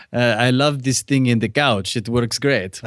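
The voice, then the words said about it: Put-on Eastern European accent. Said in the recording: “Good accent. ... It sounded Eastern European”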